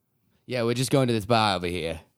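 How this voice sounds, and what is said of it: Put-on Boston accent. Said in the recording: “Do a little bit of a Boston accent. ... I think it's the best accent.”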